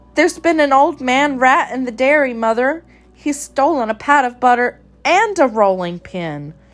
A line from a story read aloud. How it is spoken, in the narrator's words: Mittens cried